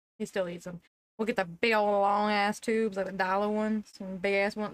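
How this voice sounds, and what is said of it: Strong regional accent. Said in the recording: “Your accent came out real bad.”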